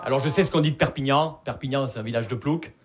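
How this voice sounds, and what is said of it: Regional southern French accent. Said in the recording (French): “vous l'entendez à mon accent, je viens pas de Paris. Je viens de Perpignan.”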